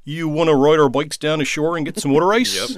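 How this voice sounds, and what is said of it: Philly-Baltimore mid-Atlantic accent. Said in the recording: “the actual mid-Atlantic accent, I grew up outside of Philly, spitting distance from Baltimore. This is how my friends and family sound ... That's the mid-Atlantic accent. ... That's very good.”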